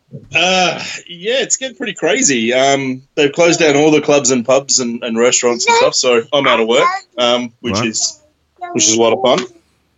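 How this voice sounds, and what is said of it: Australian accent. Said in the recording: “this is the example of the real Australian accent that he was promising”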